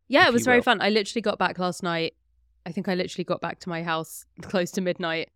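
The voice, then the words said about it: Gravelly, sick-sounding voice. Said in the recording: “I'm a sweepy baby. And I'm also a little bit sick. So apologies if my voice is sounding particularly gravelly.”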